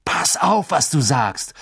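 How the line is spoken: Called out. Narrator (German): rief Ron

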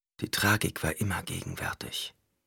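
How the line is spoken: Whispered. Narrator (German): flüsterte er

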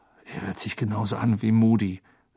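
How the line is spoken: Quiet. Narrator (German): sagte Harry leise

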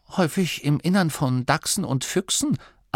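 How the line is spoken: Plain. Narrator (German): antwortete Maskelin

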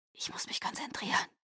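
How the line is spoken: Whisper. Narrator (German): flüsterte ich Edward zu

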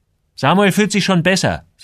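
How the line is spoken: Angry. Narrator (German): sagte Joel wütend

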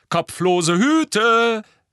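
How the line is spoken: Calling out. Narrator (German): rief George

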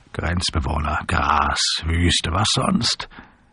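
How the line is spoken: Chuckling. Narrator (German): Er kicherte

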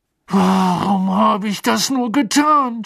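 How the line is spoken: Angry outburst. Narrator (German): stieß er wütend hervor

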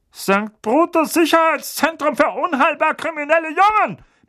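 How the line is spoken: Panicky bark. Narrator (German): bellte Onkel Vernon, einen deutlichen Anflug von Panik in seiner Stimme

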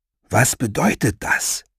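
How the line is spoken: Strong man whispering. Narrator (German): flüsterte der starke Mann

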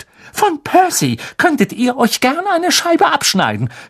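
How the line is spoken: Shouted. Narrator (German): schrie Mrs

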